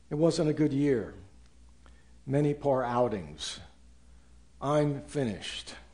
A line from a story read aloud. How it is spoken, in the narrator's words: sadly tells